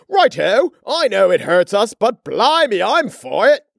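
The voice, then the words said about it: Put-on posh English accent. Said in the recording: “Albert Aluminum could have a monocle in an English accent”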